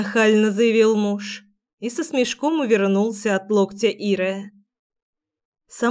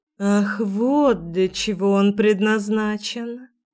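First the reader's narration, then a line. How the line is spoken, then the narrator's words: Purring. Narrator (Russian): мурлыкнула Ира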